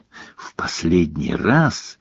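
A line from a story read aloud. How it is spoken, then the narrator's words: Hoarse whisper. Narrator (Russian): прошептал Гарри голосом, слегка осипшим за 45 минут молчания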